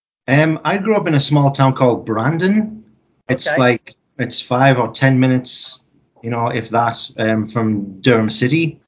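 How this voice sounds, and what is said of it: Northeast England accent. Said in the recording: “I grew up in County Durham in the northeast of England ... I haven't lost the accent”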